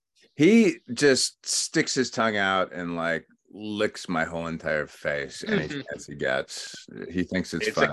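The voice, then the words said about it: Deep congested voice with a cold. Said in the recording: “Got a cold. ... you got that nice radio voice right now.”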